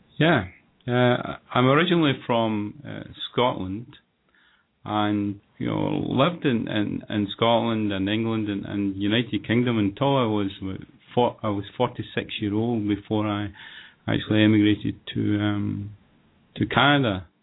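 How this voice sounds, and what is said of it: Slight foreign accent. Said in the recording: “you have a little bit of an accent”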